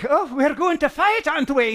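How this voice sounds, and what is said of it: Bad put-on Irish accent. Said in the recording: “Horrible Irish accent.”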